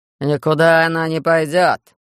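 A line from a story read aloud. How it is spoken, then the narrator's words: Growled. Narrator (Russian): рыкнул Юстов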